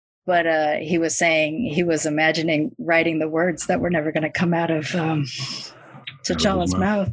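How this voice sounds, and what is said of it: Choked-up, emotional voice. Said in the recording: “this is probably where I'm going to get choked up. I'm trying not to.”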